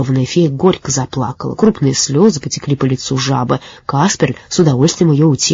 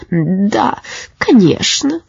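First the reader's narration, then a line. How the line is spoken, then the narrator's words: Sobbing. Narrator (Russian): всхлипнула жаба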